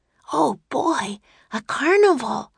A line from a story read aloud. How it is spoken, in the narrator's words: Annie whispered to Jack